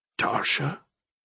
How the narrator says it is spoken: he asked softly

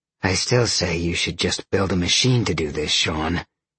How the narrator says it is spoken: Roxy growled

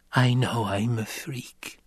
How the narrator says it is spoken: Alia whispered

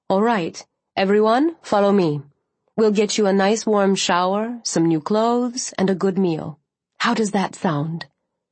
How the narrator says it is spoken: said calmly

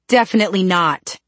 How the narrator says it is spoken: snapped Alec

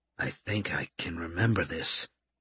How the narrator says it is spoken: he muttered

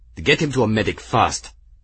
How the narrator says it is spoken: Espira snapped

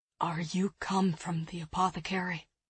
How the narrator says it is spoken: the man asked in a rasping voice

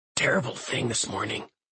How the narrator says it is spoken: he whispers

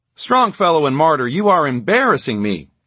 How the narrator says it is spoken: exclaimed Carlin with mock outrage

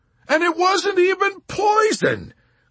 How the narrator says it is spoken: Clevenger cried heatedly, growing more emphatic as he grew more confused

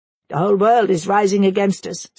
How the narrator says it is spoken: said one

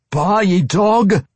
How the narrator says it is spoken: the dwarf roared

